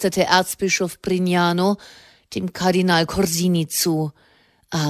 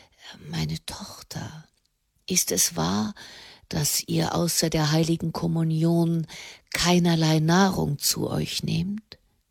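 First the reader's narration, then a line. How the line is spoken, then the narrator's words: Near whisper. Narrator (German): So leise, dass es schon fast ein Flüstern war, sagte er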